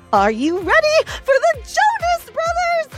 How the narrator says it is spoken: Jen squealed

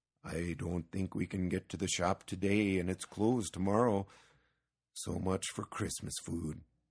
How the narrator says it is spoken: said Petson gloomily

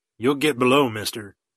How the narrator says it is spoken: commanded grimly

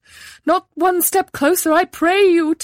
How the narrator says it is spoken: called out

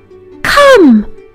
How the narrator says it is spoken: she cried

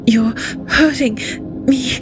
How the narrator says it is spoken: she gasped through gritty, milk-stained lips

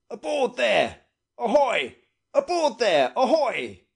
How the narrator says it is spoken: shouted Captain Gannington

